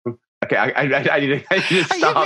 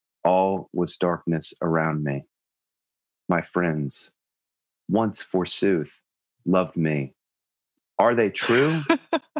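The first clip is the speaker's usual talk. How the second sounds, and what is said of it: Mock-dramatic teenage poetry recitation. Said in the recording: “extremely poetic and kind of like ... Lame, like first time anyone writes a poem when they're 16 years old kind of way ... can I do an imitation of that ... poem”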